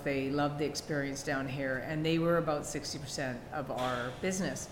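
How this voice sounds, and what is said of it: Canadian accent. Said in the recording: “I'm Canadian. I don't know if you can hear that in my accent. ... I heard it ... My version of my Canadian accent.”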